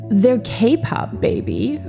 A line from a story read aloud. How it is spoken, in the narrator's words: Robert replied